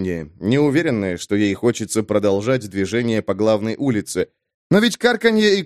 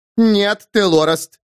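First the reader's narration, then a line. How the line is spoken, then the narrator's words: Shouted. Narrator (Russian): крикнула Кердла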